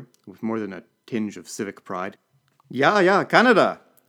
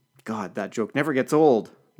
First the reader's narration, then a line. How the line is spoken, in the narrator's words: muttered LeFranc